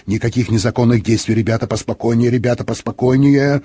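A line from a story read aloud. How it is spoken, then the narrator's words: Muttering. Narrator (Russian): Сержант Хиггинс бормотал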